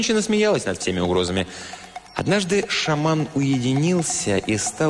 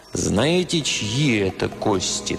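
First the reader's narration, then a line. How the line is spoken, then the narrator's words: Solemn question. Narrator (Russian): торжественно спросил он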